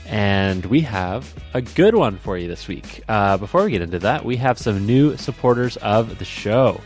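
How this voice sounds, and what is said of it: Congested, stuffed-up sick voice. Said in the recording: “I'm a little sick ... You can probably hear it in my voice. I'm a little stuffed up. I got that sick sound.”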